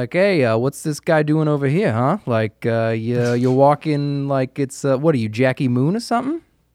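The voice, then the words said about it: Exaggerated Boston accent. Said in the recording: “the discerning Boston man ... it comes down to the accent sometimes”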